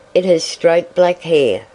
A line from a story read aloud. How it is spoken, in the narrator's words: exclaimed Dorothy